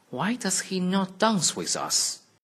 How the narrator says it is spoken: they cried

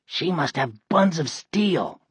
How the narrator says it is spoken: Ryan whispered

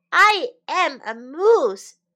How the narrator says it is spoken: cried Morris

